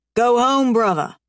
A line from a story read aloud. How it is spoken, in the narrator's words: Ryder barks